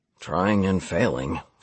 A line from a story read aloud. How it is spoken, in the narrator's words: Stephen murmured, obviously